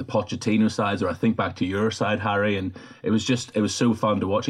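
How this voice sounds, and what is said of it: Usual voice. Nothing is said of it.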